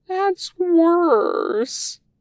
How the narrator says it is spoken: Wei Ying wails

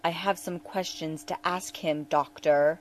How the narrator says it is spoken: Odo growled at him

